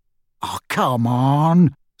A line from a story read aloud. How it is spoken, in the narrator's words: scoffed Ron